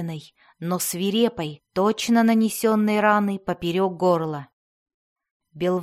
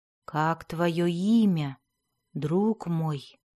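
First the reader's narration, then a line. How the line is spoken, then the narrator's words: Tunnel keeper's whisper. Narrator (Russian): прошептал хранитель туннелей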